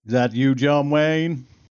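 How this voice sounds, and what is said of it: John Wayne cowboy impression. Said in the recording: “I bet he has an impeccable John Wayne accent ... Perfect. Nailed it. ... that sounded more John Wayne than your John Wayne”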